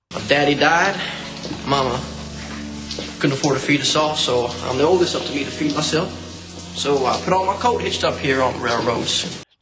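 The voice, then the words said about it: Put-on American Southern accent. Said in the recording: “puts on an American Southern accent”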